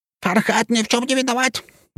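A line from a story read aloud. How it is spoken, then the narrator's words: Shrill yell. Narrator (Russian): заорал визгливый голос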